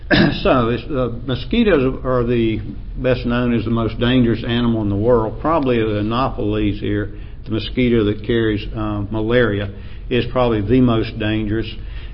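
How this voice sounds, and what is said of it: Appalachian accent. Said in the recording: “my Appalachian accent”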